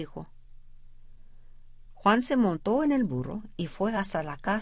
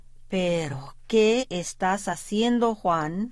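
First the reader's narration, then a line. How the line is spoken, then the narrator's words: Plain question. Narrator (Spanish): le preguntó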